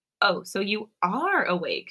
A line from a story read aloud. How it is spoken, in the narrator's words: she giggles